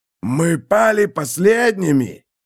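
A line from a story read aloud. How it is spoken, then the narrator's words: Growl. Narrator (Russian): прорычал кто-то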